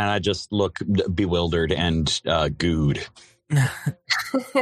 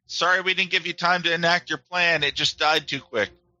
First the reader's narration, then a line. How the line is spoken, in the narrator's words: Roger yells from the back